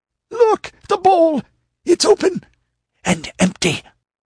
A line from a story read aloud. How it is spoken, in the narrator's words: Promero cried out sharply